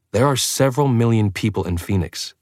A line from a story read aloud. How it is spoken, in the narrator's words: Bella said, her tone still irritated